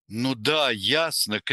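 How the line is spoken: Shout. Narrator (Russian): крикнул

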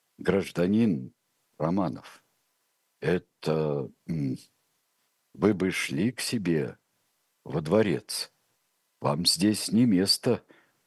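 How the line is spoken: Halting mutter. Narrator (Russian): пробормотал Антонов Овсеенко, с трудом подбирая слова

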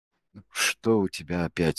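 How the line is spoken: Glum question. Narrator (Russian): спросил Андрей уныло

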